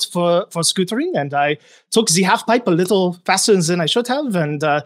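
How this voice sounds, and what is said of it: Fake French accent. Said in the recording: “I love a good fake French accent.”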